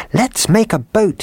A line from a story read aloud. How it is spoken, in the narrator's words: he cried